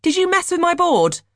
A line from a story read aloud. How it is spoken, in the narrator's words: Dimitri yelled